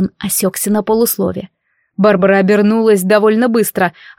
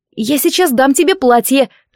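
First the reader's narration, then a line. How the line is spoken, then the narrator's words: Squeaky. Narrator (Russian): пискнула я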